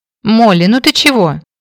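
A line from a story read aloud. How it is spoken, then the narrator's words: Exclaiming. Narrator (Russian): воскликнула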